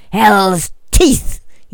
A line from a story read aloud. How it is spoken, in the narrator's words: shouted